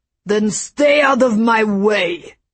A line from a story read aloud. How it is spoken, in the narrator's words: bellowed